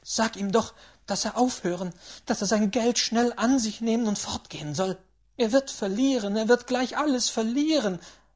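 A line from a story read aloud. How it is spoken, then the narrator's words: Breathless, agitated. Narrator (German): ereiferte sich, beinahe atemlos vor Erregung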